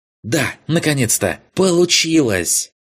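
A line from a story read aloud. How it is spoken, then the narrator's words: Joyful shout. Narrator (Russian): Радостно проорал он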